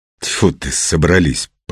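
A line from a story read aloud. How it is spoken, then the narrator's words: Hissing. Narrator (Russian): прошипел Петр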